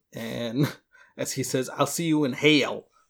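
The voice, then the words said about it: Put-on Southern accent. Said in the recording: “Is that your Arnold accent? ... No, that's the Southern guy.”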